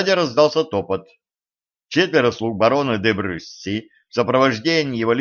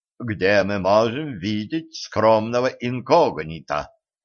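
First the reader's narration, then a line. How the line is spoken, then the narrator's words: Stern question. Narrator (Russian): строго вопросил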